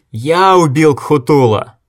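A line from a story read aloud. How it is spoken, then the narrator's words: Screaming, spitting blood. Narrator (Russian): Логерд кричал так, что кровь брызгала изо рта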